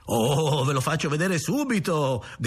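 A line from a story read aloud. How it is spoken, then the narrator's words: Shouted back. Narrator (Italian): gridò lui di rimando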